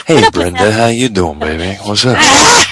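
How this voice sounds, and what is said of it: 70s groovy put-on accent. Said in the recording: “accent of Bobby ... That was just kind of like 70s in the groove thing.”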